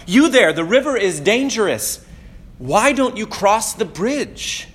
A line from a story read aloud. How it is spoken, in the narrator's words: one of the townspeople called out